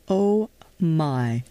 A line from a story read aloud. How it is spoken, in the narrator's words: I stuttered as reality registered